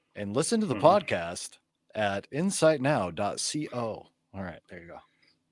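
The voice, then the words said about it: Announcer-style radio voice. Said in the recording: “That was my official radio voice.”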